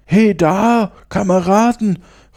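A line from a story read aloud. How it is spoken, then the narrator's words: Calling over. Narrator (German): rief einer denen zu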